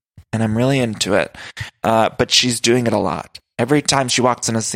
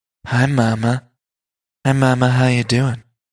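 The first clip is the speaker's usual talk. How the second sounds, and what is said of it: Sultry, sexy voice. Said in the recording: “Garcelle's got that sexy voice. That's a sultry, sexy voice.”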